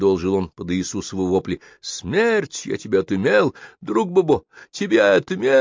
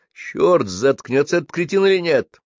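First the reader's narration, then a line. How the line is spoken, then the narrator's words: Police driver barking loudly. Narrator (Russian): гаркнул водитель-полицейский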